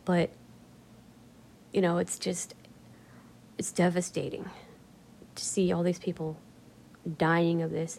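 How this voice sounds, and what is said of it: Softer, drained-sounding voice. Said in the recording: “can you tell my voice is getting a little softer? ... I'm kind of getting drained”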